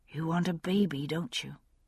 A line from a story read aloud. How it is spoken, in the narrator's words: she asked softly